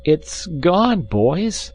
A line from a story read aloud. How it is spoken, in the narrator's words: he said at last in a hopeless tone